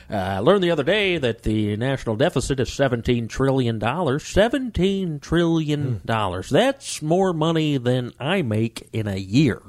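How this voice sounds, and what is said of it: Poor Andy Sanford impression. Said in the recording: “That was a terrible Andy ... Sanford. ... that's not a good Andy Sanford impression. ... your horrible impression”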